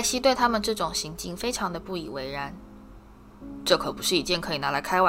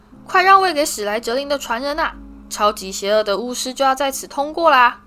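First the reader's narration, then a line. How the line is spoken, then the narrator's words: Loud shouting. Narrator (Chinese): 嘴里还大声嚷着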